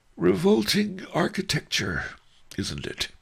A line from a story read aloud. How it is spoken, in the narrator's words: said with a yawn